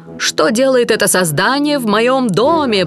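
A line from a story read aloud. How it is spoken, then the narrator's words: Monster's roar. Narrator (Russian): проревело чудовище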